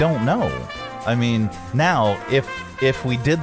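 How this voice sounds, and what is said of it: Usual voice. Nothing is said of it.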